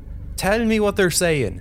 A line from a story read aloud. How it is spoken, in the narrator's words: shouts Hugh